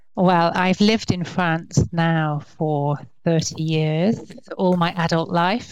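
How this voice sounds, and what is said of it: English accent. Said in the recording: “your accent is definitely not French ... But I grew up in England, okay. Hence the accent.”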